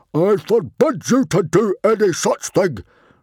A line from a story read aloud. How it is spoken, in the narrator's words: roared Stoic